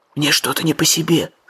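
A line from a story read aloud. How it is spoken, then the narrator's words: Whisper. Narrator (Russian): шепнул Джим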